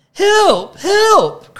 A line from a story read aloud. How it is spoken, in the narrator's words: cried P